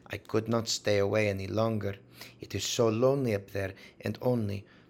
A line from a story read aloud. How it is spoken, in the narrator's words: said she, speaking English with a broken accent